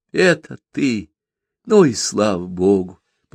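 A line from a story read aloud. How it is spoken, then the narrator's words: Tiredly happy repetition. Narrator (Russian): повторяла Тина устало счастливым голосом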